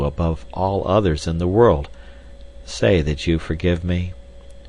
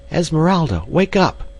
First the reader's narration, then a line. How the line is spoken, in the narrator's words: she cried